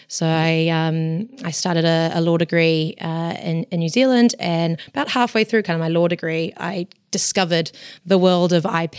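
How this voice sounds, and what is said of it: New Zealand accent. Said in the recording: “you might have could tell from the accent, but I'm actually not from the UK. I originally trained in New Zealand”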